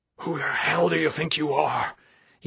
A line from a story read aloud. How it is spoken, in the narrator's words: he breathed at her, his face dark with rage